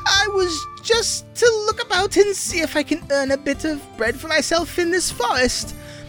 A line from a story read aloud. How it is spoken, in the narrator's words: The tailor whimpered